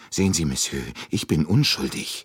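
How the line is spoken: Still fearful speech. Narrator (German): sagte Michel noch immer ängstlich

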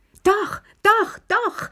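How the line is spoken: Shouted. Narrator (German): schrie Lilly

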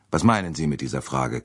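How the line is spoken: Sharp retort. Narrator (German): kam es scharf zurück

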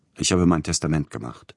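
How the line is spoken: Plain answer. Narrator (German): antwortete Peter Iljitsch

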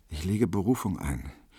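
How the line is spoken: Serious, thoughtful muttering. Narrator (German): ernst und nachdenksam, vor sich hin murmelte

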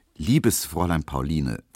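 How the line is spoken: Very calm reply. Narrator (German): versetzte Emil Kubinke sehr ruhig

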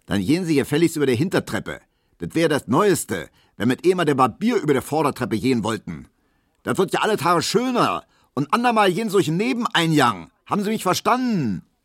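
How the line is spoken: Bellowing after someone. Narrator (German): brüllte der neue Vizewirt der Piesecke immer noch hinter ihm her

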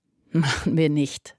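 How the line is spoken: Laughing. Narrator (German): lachte George

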